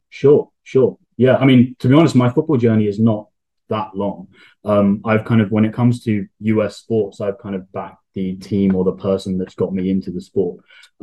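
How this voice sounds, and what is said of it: Heavy UK accent. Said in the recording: “the heavy UK accent ... one of the few people in our club that are originally from the UK”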